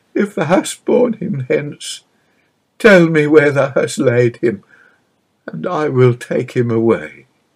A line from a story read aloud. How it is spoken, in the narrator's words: she sobbed pathetically